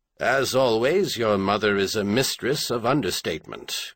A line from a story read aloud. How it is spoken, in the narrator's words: Green Mountain said dryly